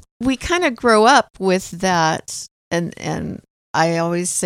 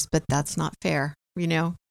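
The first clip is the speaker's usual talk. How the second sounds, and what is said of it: Mom voice. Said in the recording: “this is my mom voice”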